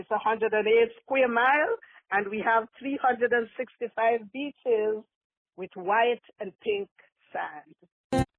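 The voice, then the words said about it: Beautiful Antiguan Caribbean accent. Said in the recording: “where are you from originally with that beautiful accent? ... I am from the Caribbean in Antigua, St. John's, Antigua.”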